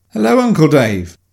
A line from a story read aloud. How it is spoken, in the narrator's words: Mummy said, barely stifling a giggle